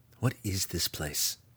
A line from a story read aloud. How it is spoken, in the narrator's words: he whispered